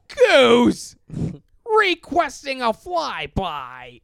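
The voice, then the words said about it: Imitates another person's voice, screaming. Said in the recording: “my Tom Hanks impression ... Your Tom Hanks is just Woody screaming ... this is a rip-off of someone else's impression, but this is Tom Hanks in Top Gun going”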